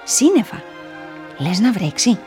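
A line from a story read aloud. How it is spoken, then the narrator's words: Murmur. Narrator (Greek): μουρμούρισε το ένα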